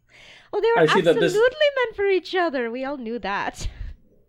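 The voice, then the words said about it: Put-on accent. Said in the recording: “this is the accent you warned us about”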